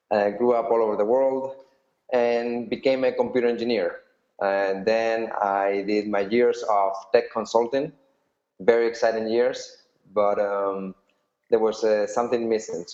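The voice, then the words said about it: Spanish accent. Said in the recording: “I'm originally from Spain, although I was born in the US, which not many people would say, judging by my accent.”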